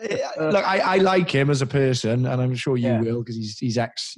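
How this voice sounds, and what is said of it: Usual voice. Nothing is said of it.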